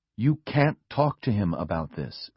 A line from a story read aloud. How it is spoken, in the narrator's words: Liz said firmly